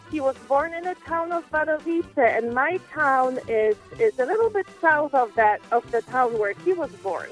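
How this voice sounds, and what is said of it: Speaks with a foreign accent. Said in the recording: “a sexy accent... my accent”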